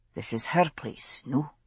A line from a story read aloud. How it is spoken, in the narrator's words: he said quietly